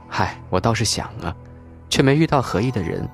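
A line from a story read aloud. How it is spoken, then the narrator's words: Long wistful sigh. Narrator (Chinese): 吴红悠悠叹道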